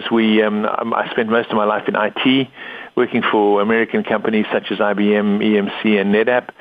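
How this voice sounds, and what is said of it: Confused mixed accent. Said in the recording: “my confused accent”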